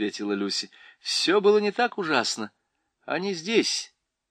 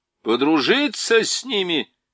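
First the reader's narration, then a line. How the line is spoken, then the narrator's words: Shouted. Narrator (Russian): закричал Юстас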